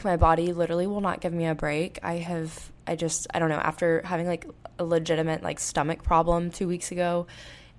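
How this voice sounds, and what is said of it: Voice sounds off from illness. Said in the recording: “if my voice sounds a little off, it's because I've been sick all week ... some sort of respiratory or sinus infection”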